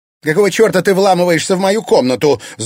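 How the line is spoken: Angry shout. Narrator (Russian): зло крикнула Анфиса Ирине

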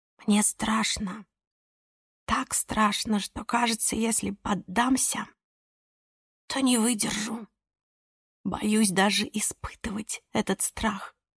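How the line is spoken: Whisper. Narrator (Russian): Альбина прошептала

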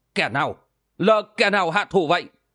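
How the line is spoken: Angry shouted question. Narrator (Vietnamese): Câu hồn bang chủ giận dữ quát hỏi

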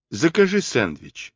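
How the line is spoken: Calm advice. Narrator (Russian): спокойно посоветовал он Крис

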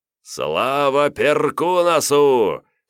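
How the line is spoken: Loud laughing shout. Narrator (Russian): хохоча громко закричал Давмонт

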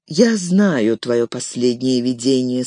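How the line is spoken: Calm. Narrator (Russian): спокойно сказала владычица Галадриэль

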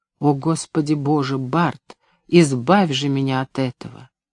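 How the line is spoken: Whisper. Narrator (Russian): шепот Тоби

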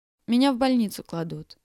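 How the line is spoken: Plain. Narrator (Russian): сказала она

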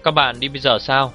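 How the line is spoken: Plain. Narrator (Vietnamese): Đường Phong hỏi

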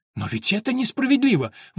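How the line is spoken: Indignant girl exclaiming. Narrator (Russian): возмущенно воскликнула девочка

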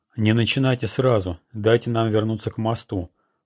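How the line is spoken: Muffled reminder. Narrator (Russian): глухо напомнил Тага

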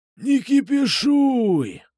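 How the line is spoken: Wheezing. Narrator (Russian): просипел Кукуша

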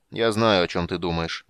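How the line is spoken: Grim interruption, king. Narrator (Russian): мрачно перебил его король

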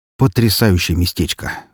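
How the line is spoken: Sighing. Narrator (Russian): вздохнул Трой

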